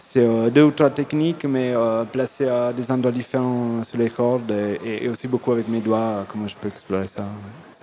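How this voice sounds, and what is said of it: Italian accent speaking French. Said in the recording (French): “on apprécie cet accent italien”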